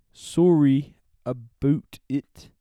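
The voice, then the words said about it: Imitated Canadian accent. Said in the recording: “my Canadian impression.”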